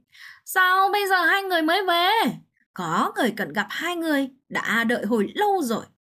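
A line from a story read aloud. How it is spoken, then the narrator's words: Loud question. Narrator (Vietnamese): Tạ Bật lớn tiếng hỏi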